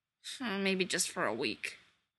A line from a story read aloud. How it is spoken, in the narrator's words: he mumbled